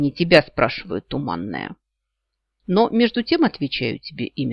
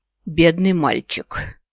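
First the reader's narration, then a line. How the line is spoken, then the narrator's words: Heavy sigh, grandmother. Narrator (Russian): тяжко вздохнула ба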